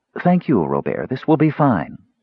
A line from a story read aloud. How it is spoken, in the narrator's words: Shabbos interrupted smoothly